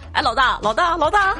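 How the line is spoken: Group calling out. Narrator (Chinese): 十几个小弟，天天喊他

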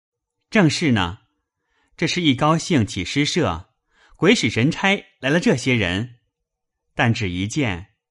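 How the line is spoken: Laughing. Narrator (Chinese): 宝玉笑道

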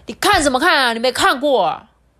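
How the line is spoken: Angry shouting. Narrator (Chinese): 火胡子…大吼大叫

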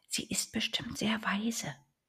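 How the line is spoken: Whispering little duck. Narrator (German): flüsterte die kleine Ente

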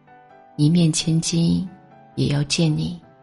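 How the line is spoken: Gentle. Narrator (Chinese): 温柔的说

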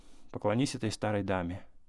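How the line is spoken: Quick, flustered, blushing. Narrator (Russian): вдруг весь покраснев, говорил ей быстро

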